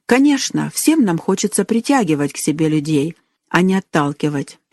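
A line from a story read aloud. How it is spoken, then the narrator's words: Gentle aunt. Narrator (Russian): мягко сказала тетя Ханна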